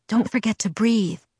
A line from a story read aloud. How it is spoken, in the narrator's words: I whispered sarcastically